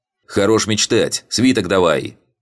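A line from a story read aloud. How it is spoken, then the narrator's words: Harsh bark. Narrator (Russian): рявкнул я на карлика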